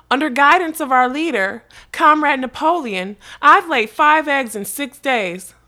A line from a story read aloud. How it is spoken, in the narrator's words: two cows, would exclaim